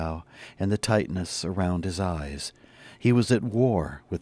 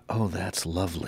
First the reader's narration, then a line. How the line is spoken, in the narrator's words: he whispered